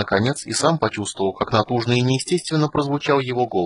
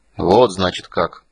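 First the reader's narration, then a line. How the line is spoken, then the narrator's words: Grumbling. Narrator (Russian): проворчал затем Флинт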